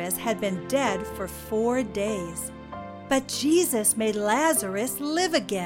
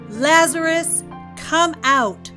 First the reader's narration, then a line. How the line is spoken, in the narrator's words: He called out in a loud voice